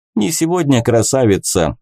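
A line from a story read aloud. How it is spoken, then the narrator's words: Laughing. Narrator (Russian): засмеялся он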